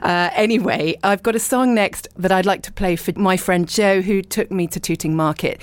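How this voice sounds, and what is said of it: Croaky, hoarse voice. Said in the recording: “Croaky ... my voice is paying the price ... I'm hoping it sounds kind of nice, a little bit like Mariella Frostrup maybe, or not.”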